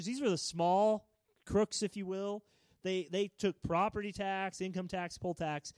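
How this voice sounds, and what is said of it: Missouri accent. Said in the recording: “my uh, bad Missouri accent”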